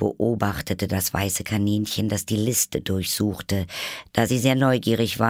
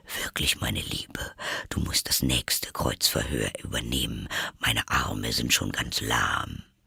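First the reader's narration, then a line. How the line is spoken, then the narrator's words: Quietly added. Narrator (German): zu der Königin gewandt, fügte er leise hinzu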